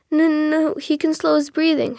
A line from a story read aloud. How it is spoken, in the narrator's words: his father stammered